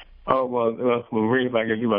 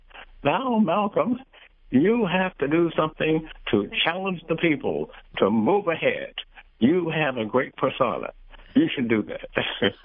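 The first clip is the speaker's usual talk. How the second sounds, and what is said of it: Impression of Grace. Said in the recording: “my best Grace impression”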